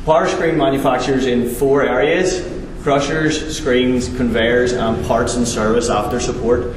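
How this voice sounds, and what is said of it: Irish accent. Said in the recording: “Founded in Ireland, that's where I'm from, probably guessed by the accent.”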